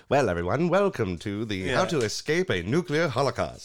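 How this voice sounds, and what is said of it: Old cartoon PSA narrator voice. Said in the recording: “You're thinking of like a cartoon PSA. ... me doing that voice”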